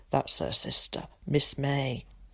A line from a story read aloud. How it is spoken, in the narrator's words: he said in a low voice